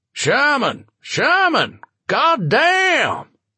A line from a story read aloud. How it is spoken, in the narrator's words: A booming voice